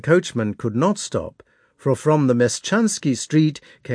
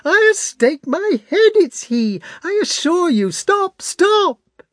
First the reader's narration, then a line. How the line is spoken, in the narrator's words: she cried to the coachman